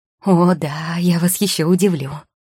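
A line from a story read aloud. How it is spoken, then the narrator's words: Excited exclamation. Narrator (Russian): воскликнула Маргарита, едва не подскочив на месте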